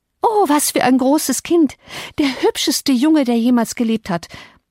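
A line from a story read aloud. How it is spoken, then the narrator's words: Breathless exclaiming. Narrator (German): rief nach mir und keuchte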